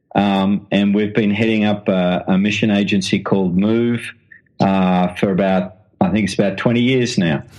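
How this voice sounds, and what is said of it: Australian accent. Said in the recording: “as you can tell from the accent, I'm an Australian.”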